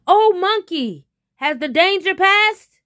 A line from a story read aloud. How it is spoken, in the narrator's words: The tiger called out